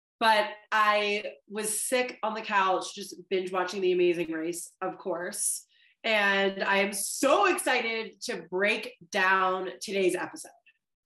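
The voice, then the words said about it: Slightly stuffed-up congested voice. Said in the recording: “fighting a little sinus infection ... sound a little stuffed up”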